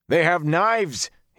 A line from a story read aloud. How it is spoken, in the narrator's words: he roared